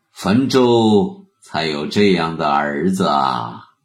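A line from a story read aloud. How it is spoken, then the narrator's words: Deep sigh. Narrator (Chinese): 浩叹了一声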